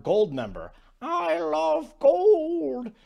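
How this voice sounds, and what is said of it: Bad Goldmember impression. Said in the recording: “bad gold member impersonation”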